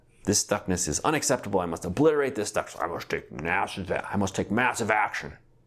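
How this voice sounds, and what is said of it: Imitates another person's voice. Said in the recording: “That's my impression of a certain person in the transformational world.”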